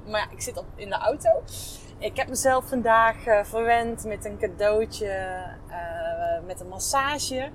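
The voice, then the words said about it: Brabant regional Dutch accent. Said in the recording (Dutch): “je kan natuurlijk al aan mijn accent horen. ik woon in Brabant”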